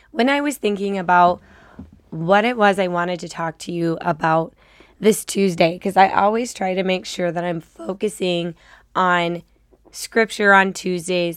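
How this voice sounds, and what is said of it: Slightly raspy voice. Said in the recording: “I have a little bit of a cold, which is why I sound like a little raspy”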